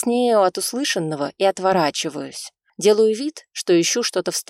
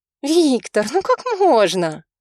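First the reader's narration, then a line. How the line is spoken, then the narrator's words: Mock-indignant, playful girl. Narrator (Russian): Вроде и возмущенно, но как-то уж чересчур игриво произносит девушка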